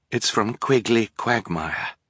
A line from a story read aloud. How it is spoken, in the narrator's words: she said quietly